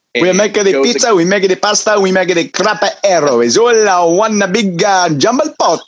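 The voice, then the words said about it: Poor put-on Italian accent. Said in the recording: “a poor attempt at an Italian accent”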